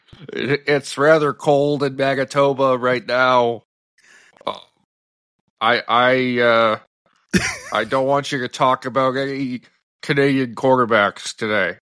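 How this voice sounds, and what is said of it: Bad impression of co-host. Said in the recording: “That's your Hodge impression ... That might be the worst impression I've ever heard”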